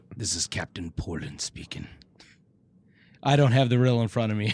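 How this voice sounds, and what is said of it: Character voice. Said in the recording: “Should I try and say this like Captain Poland? ... Do the voice. ... I was doing the voice.”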